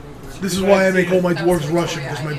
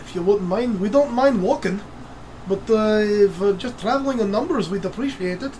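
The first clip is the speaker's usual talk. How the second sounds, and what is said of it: Weak attempted Scottish brogue. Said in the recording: “my brogue sucks. I apologize to any Scottish listeners. I know my accent sucks ... I figured I'd give a shot at a brogue.”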